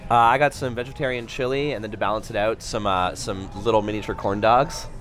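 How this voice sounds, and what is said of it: Slightly hoarse voice. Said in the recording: “The slightly hoarse one is”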